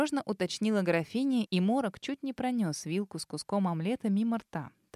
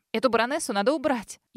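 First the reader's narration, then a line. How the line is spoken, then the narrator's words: Sudden hysterical shout. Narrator (Russian): истерично выкрикнула вдруг она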